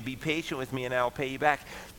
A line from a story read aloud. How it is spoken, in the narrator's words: he begged him